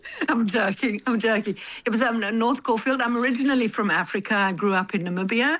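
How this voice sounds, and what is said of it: Namibian accent. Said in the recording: “I've been wondering about your accent for years ... Little bit different accent to South Africans”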